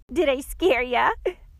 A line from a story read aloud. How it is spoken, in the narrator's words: the girl asked, barely able to speak through her fits of laughter